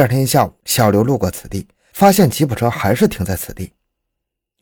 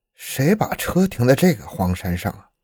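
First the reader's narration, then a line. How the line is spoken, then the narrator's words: Inner muttering. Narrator (Chinese): 他心里嘀咕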